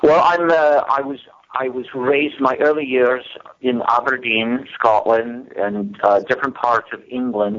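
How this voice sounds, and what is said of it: British-Scottish accent. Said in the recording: “I could listen to that accent forever”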